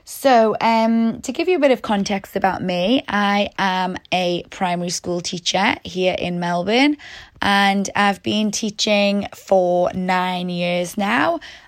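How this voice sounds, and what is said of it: British English accent, from Newcastle. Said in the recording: “I'm originally from the UK, as some of you might have heard in my accent ... I'm originally from Newcastle in the UK”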